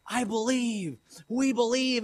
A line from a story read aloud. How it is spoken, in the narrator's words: they're shouting in unison